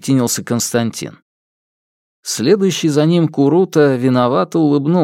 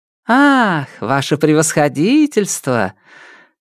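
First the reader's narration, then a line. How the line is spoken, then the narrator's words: Cheerful greeting. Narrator (Russian): Нелидова приветствовала его весело, но без прежнего блеска в глазах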